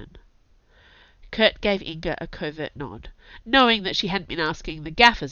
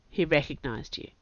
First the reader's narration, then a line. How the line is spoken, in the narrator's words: said Brennan flatly